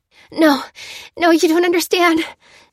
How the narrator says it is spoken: she spluttered

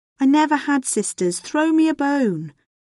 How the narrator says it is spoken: says Isolde's father sadly

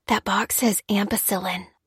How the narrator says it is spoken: Lucy whispered to Dan

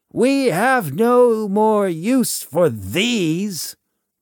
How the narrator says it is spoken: the voice shouts

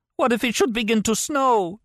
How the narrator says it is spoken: she cried

